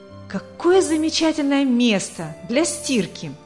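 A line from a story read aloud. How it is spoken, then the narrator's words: Exclaiming. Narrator (Russian): воскликнула она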